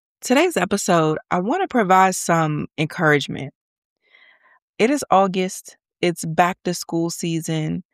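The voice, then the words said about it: Congested, stuffy voice. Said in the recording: “I sound a little congested. ... just a little congested. So forgive my voice.”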